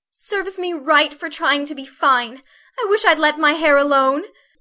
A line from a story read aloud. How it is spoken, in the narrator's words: cried Meg petulantly